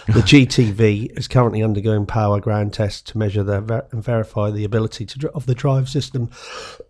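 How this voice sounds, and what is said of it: Hoarse, fading voice. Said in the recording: “I'm gradually losing my voice.”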